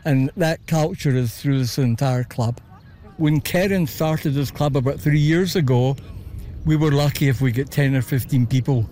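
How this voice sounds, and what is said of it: Scottish Glasgow accent. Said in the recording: “I couldn't help but notice your accent. ... Originally from Glasgow.”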